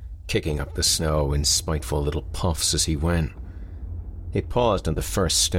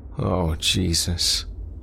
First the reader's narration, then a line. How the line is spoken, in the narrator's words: Craig moaned